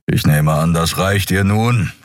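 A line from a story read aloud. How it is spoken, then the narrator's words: Impatient growl. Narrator (German): knurrte Keru ungeduldig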